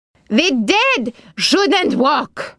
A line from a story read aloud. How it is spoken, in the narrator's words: Ara yelled at her